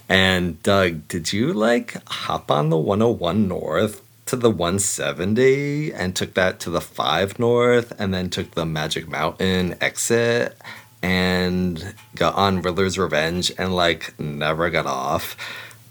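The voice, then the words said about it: Bad exaggerated Californian accent. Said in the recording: “my worst Californian Saturday Night Live impersonation”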